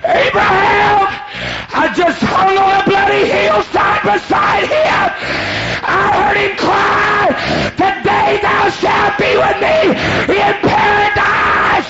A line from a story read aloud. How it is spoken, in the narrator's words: Said, Abraham, the thief cried to Abraham